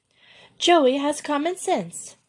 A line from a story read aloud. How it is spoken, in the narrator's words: cried the Frenchwoman in her own tongue